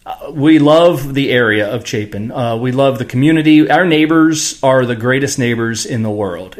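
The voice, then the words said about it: Smooth radio-announcer voice. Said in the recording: “You have a great radio voice. ... He does. I think it's better than ours.”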